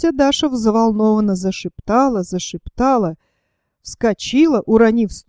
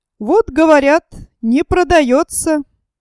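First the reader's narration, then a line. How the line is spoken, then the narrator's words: Smug. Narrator (Russian): Самодовольно сказал Сковородников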